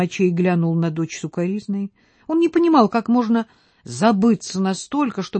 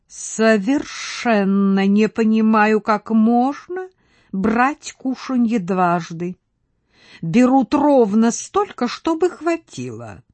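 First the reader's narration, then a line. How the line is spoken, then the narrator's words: Distinct, slightly hissing drawl. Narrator (Russian): отчетливо произнесла по-французски, чуть шипящим голосом растягивая слова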